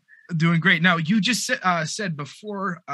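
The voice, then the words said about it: Smooth professional radio-announcer voice. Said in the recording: “radio voice ... It's like ASMR for our listeners ... It's so, super professional sounding.”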